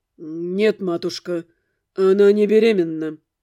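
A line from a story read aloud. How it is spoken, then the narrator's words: Through gritted teeth. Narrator (Russian): ответил он сквозь зубы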